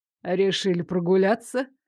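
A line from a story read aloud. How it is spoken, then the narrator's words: Mocking question. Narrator (Russian): насмешливо поинтересовался он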